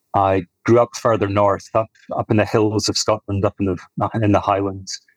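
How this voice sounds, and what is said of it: Soft Scottish accent. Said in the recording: “It sounds like it's Welsh, maybe Scottish ... It's a very soft Scottish accent. It's nice. ... it's softer ... it's kind of a softer, like Irish”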